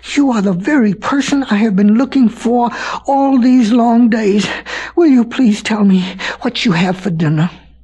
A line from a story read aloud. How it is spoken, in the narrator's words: grew all breathless and panted and kneeled down on the bank and said